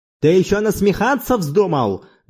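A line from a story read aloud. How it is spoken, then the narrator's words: Roaring. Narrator (Russian): взревел Монолакас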